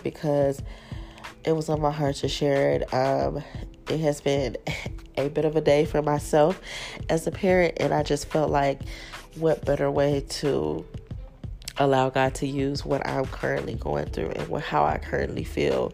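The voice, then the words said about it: Stuffy, congested nasal voice. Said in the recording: “if I sound really stuffy. ... My nose is a little clogged up right now”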